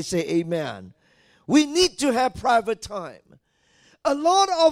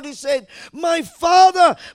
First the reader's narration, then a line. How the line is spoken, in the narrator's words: he cried